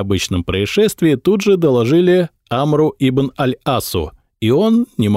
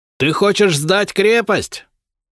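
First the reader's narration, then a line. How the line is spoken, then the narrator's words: Shouted. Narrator (Russian): крикнул Амр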